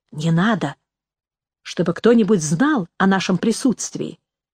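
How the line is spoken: Whispered. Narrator (Russian): прошептала Нэнси

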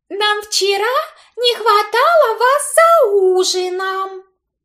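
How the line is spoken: Cooing, overly familiar. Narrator (Russian): проворковала Имаджин, словно мы познакомились 1000 лет назад

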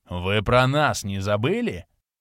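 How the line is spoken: Polite growl. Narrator (Russian): вежливо рыкнул Ренокс

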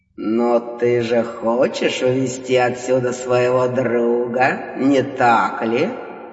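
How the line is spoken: Mocking rumbling bass. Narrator (Russian): Насмешливо поинтересовался ракочущим басом Хтон

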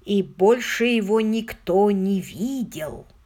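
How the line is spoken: Sepulchral voice. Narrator (Russian): добавил отставной сержант Ливингстон таким замогильным голосом

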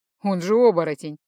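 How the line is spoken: Chuckling. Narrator (Russian): хохотнул Рыжий

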